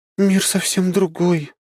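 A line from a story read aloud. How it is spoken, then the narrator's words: Wistful sigh. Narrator (Russian): с тоской вздохнула она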